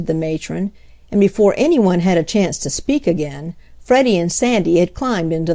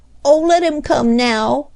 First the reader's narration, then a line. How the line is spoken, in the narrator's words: pleaded Freddie